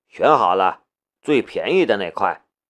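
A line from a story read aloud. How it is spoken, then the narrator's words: Flat, indifferent. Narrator (Chinese): 淡淡的问了一句，夏雷说道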